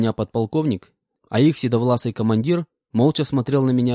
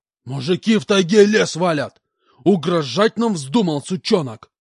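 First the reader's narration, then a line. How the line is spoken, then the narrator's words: Yelling, interrupting. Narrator (Russian): Опять заорал полкан, перебив меня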